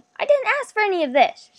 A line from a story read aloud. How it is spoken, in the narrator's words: nearly shouted